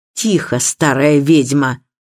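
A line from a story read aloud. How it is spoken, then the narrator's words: Fierce reply. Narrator (Russian): свирепым тоном отозвался Безил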